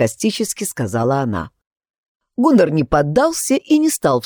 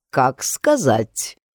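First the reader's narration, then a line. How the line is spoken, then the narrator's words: Slow and calm. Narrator (Russian): медленно и спокойно произнес Гуннар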